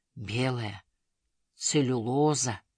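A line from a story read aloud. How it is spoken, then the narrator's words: Muttering into birch bark. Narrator (Russian): пробормотал он в бересту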